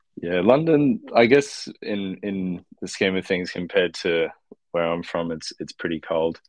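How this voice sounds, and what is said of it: Australian accent. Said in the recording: “as you might be able to tell from my accent. I'm from Australia”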